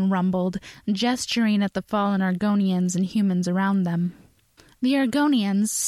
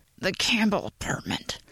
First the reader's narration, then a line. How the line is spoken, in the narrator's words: he said through gritted teeth